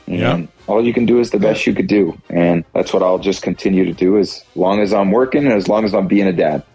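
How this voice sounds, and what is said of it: Sad-sounding voice. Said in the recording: “He sounds sad,”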